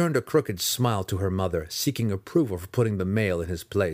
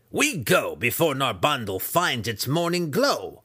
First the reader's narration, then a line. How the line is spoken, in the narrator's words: Breeza snapped at him with her thick but razor-sharp voice